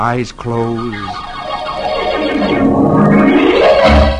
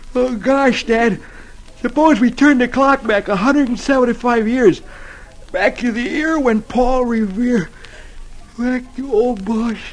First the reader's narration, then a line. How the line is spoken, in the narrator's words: he yawns and says